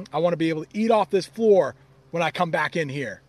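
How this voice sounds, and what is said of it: Mock stern dad voice. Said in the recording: “It's my dad voice.”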